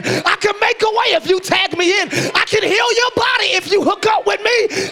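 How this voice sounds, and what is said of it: Loud, screaming preaching. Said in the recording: “I'm screaming. ... I'm trying not to scream. If I'm too loud out there, turn me down”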